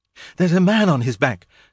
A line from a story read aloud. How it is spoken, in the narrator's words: gasped Jane